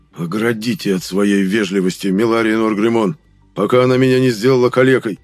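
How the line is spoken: Grumbling. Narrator (Russian): проворчал монарх

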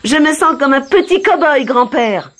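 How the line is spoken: Excited exclamation. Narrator (French): s'écria-t-il

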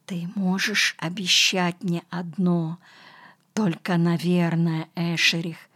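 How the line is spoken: Whisper. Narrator (Russian): Энно прошептал

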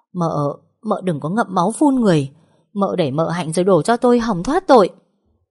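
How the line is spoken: Stammering. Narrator (Vietnamese): Vú Quý lắp bắp

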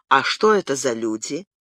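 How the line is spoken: Calm question. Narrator (Russian): спросил тем же спокойным тоном

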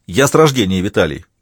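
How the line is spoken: Snapping retort. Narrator (Russian): огрызнулся Молоков

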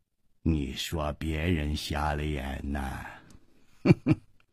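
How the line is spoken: Cold. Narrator (Chinese): 掌柜的冷冷地说

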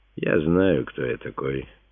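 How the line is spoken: Calm. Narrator (Russian): спокойно отвечал Симеон

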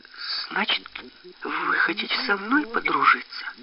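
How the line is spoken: Whispered question. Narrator (Russian): спросила Травка шепотом

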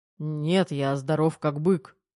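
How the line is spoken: Snorting. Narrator (Russian): фыркнул Терех

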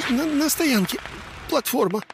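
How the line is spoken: Squeaky lantern voice. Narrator (Russian): снова пискнул фонарь

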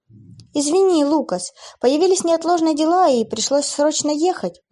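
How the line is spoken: Agitated young woman. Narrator (Russian): взволнованно произнесла девушка

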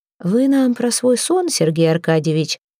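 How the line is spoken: Insinuating question. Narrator (Russian): вкрадчиво спросил Кони

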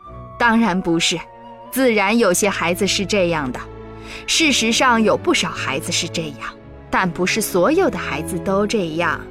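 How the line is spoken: Smiling. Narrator (Chinese): 查理爸爸对床上这位老太太微笑着说

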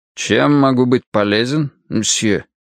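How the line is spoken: Old man, husky, strange accent. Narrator (Russian): Старик хрипловато заговорил в ответ, судя по всему, тоже по-французски, но с каким-то странным акцентом

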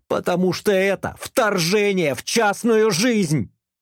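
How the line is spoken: Shouted. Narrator (Russian): закричала она

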